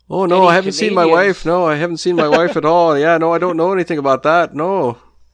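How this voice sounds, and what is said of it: Put-on Midwestern accent. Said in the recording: “think of Fargo ... typical, like, Midwestern accent”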